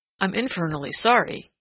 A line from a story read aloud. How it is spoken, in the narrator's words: he said quickly